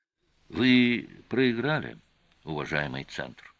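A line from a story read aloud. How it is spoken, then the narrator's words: Calm. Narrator (Russian): спокойно сказал Олес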